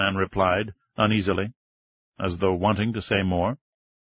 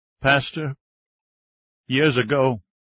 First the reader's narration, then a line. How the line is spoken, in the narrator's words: his voice choked up again